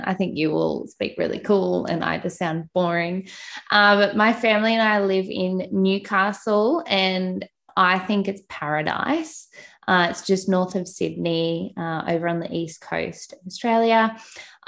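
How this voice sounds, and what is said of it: Australian accent. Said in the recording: “You probably tell from my accent, I am from Australia.”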